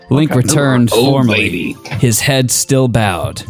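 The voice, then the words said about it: Put-on sexy reading voice. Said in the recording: “I'm reading sexily now ... is your sexy voice? ... I wouldn't say this is sexy, but it's an AF for effort.”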